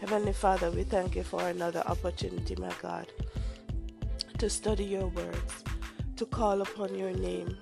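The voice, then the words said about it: Voice weakened by a cold. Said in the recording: “excuse my voice because I'm having a cold, and so I might sound a bit poor... my voice might sound a bit weird”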